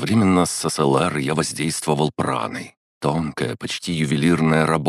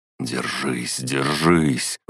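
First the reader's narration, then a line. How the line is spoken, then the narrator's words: Breathless exhale. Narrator (Russian): выдохнул я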